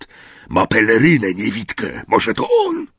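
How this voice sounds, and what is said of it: Hoarse whisper. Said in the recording (Polish): “ochrypły szept”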